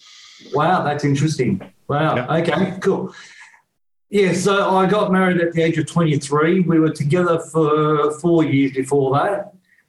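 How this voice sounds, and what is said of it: Australian accent. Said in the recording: “here in Sydney, Australia. Hence my accent”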